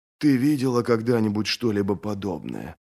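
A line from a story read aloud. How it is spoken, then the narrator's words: Whisper. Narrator (Russian): прошептал Брент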